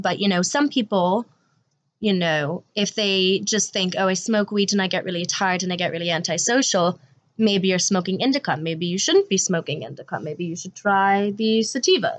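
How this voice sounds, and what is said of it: Wavering fake accent. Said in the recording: “my accent here is going a little adrift, but it's trying to keep it up ... fake accent”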